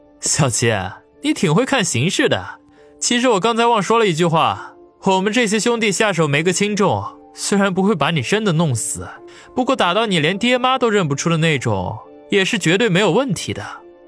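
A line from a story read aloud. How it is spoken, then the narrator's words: Mocking laugh. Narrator (Chinese): 王宇嘿嘿一笑，揶揄的笑道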